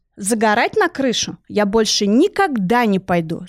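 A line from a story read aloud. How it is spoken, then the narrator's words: Plain. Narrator (Russian): сказала я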